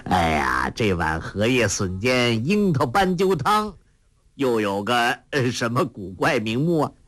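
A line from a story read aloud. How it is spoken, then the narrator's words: Proud laughing. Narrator (Chinese): 甚是得意，笑道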